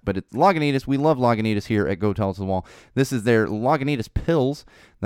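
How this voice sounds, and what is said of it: Partly lost, slightly strained voice. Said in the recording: “I lost my voice a little bit over the weekend. Not fully. ... you might notice that I'm sounding just a little bit differently”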